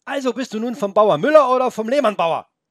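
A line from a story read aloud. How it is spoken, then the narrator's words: Agitated shout. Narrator (German): rief Felix aufgebracht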